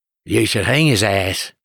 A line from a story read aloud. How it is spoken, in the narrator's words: the old man said gruffly